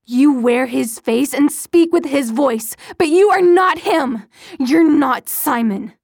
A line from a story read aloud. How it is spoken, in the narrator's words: Her voice rose to almost a scream